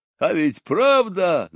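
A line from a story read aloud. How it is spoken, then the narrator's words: Drunken boastful yell. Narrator (Russian): заорал он, преувеличивая свою удаль, хотя и впрямь опьянел от рома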